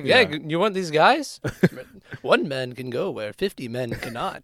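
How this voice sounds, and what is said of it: Sly evil Obi-Wan-like character voice. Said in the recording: “That's exactly what he sounds like, yeah. Like, imagine, like, evil Obi-Wan. That's what he sounds like. ... That was a good impression.”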